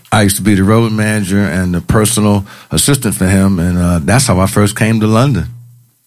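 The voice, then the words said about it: Noticeable non-British accent. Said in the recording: “you still got that accent, haven't you? ... I got the accent”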